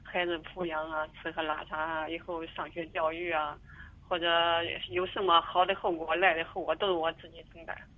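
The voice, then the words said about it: Mandarin with a regional accent. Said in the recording (Chinese): “带点普通普那个口音的普通话”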